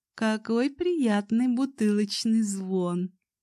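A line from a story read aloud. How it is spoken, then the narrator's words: Laughing. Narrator (Russian): засмеялась она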